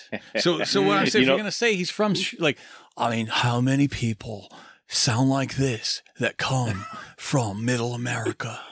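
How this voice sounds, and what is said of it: Imitated laid-back surfer accent. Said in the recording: “the surfer guy accent ... That's a pretty good Keanu Reeves, by the way. That's actually solid Keanu Reeves.”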